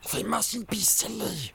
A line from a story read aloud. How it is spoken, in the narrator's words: he hissed